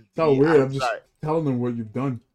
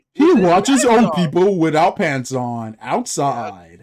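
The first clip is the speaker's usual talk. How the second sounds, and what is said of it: Up-and-down newscaster voice. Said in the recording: “That's going up and down. That's like a newscaster voice.”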